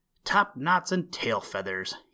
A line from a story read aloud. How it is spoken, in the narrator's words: exclaimed